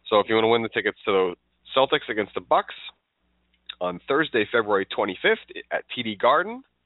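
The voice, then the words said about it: Congested, stuffed-up voice. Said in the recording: “my voice is not what I would like it to be. I'm a little stuffed up.”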